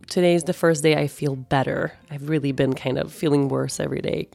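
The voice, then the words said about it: Low, husky voice from a cold. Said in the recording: “my voice is extra low and sexy this week ... coming out of a pretty bad cold”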